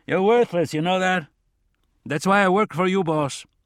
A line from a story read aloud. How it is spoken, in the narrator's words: shouted back, joking